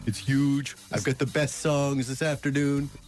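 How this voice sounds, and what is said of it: Donald Trump impression. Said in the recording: “I finally got an impersonation I can do ... My impersonation is huge ... That's Donald Trump?”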